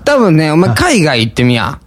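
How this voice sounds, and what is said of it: Nagoya dialect speech. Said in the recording (Japanese): “名古屋弁で言うけど... 思いっきり名古屋弁ですけどね”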